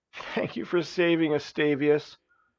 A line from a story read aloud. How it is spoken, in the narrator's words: tears were streaming down her face as she cried